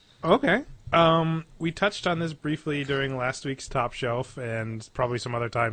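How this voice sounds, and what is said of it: Usual voice. Nothing is said of it.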